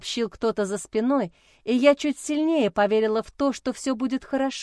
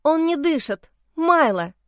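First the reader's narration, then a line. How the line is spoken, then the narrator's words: Hysterical, forced out. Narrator (Russian): Истерично выдавила я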